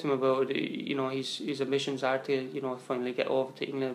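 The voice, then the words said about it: Strong Kilkenny Waterford Irish accent. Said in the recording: “accent, though, Jesus, like that Kilkenny Waterford accent, ... fair raw, isn't it?”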